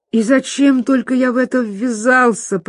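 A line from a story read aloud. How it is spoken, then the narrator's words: Groaning. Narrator (Russian): простонал Пипин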